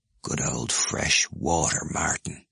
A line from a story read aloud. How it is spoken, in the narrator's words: Moynihan whispered from behind